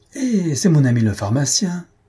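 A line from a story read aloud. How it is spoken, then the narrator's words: Exclaimed. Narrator (French): s'écria Bengali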